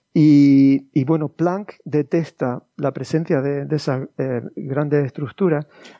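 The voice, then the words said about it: Speaks with a noticeable accent. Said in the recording (Spanish): “Perdón, por tu acento, ¿Planck detesta o detecta la presencia de estas estructuras?”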